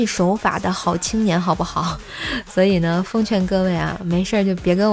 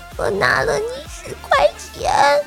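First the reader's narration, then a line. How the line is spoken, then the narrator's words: Sobbing. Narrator (Chinese): 我抽泣着说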